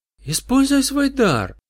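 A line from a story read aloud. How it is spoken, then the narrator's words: Sudden passionate exclamation. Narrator (Russian): с неожиданной горячностью воскликнула сладкая отрава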